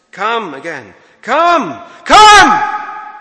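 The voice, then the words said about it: Raised, shouting voice. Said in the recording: “raise my voice”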